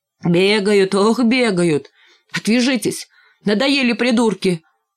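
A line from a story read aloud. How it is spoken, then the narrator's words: Shouted in strange voice. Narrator (Russian): каким-то чужим голосом выкрикнул Димка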